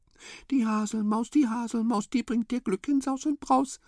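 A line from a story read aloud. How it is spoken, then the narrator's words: Whispered. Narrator (German): wisperte Haselmaus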